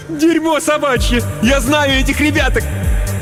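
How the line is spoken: Shout. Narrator (Russian): Гресса прокричала

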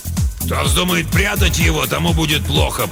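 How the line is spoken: Growled. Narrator (Russian): прорычал он

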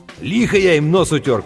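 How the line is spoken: Shout. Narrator (Russian): крикнул Сэм

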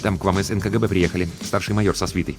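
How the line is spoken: Hurried, quiet report. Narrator (Russian): звукорежиссер Тимарцев и торопливо, негромко сообщил

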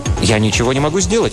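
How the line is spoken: Plain. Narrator (Russian): ответил Шарп

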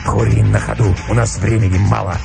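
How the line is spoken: Curt and hoarse. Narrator (Russian): ответил волк отрывисто и хрипло

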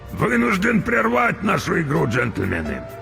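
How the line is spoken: Hoarse speech. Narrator (Russian): хрипло проговорил Крюк

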